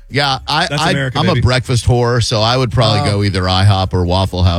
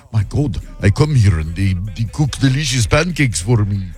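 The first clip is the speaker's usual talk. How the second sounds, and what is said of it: Weird put-on Eastern European accent. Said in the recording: “that was a weird accent ... I was Eastern Europe somewhere”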